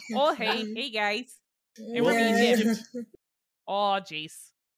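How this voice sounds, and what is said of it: Put-on Wisconsin accent. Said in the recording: “I'm going to do a Wisconsin accent, because that's the only one I can do very well.”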